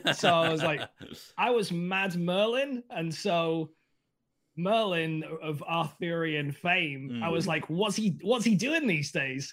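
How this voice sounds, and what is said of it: British accent. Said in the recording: “I've got to British it up, right? ... I've got an accent.”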